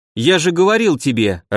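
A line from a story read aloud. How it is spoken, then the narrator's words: Irritated. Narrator (Russian): раздраженно сказал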